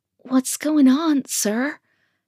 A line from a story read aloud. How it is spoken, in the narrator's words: slurred